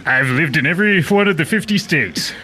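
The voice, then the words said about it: Hard-to-place accent, like Homer Simpson. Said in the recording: “You sound like Homer Simpson's weird brother. ... That accent is very difficult to place.”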